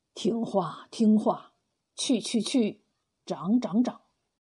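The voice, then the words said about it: Quiet, hushed voice. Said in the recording (Chinese): “小声的说”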